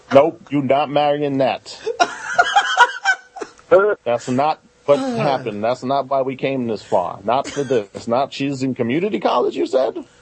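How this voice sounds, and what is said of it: Imitates another person's voice. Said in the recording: “great Doc Rivers impersonation”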